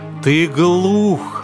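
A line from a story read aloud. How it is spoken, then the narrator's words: Growling. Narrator (Russian): рычал Левий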